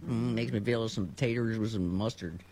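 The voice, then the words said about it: Sling Blade's Carl Childers impression. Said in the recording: “you can really do the voice today. You can do the Sling Blade voice. ... Carl Childers”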